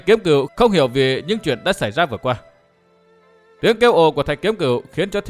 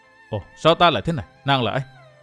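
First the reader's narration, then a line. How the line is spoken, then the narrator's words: Dazed mumble. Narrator (Vietnamese): Thạch Kiếm Cửu ... như người vừa tỉnh một cơn ác mộng hãi hùng, chàng lẩm bẩm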